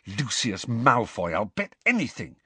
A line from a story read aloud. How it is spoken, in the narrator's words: said Harry in a low, furious voice